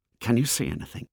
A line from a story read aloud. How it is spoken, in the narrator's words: He heard them whispering